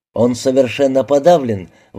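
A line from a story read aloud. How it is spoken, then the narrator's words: Exclaimed. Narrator (Russian): воскликнул Найджел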